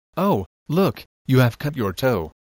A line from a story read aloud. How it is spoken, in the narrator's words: exclaimed